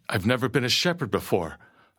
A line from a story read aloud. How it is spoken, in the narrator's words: I stammered